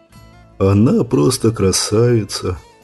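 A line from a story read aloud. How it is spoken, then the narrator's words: Sad. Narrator (Russian): печально поведал Джим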